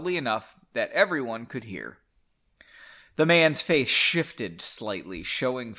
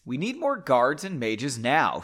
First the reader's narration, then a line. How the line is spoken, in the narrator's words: she said